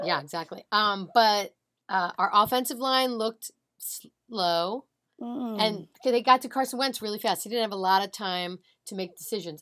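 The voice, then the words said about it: Slightly hoarse voice. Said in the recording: “I was screaming a lot. My voice is a little hoarse from that ... little hoarse”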